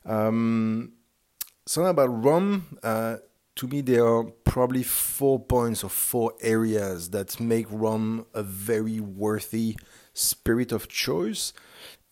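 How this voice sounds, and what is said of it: French accent. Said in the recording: “you had probably found out based on my accent that France is my home country”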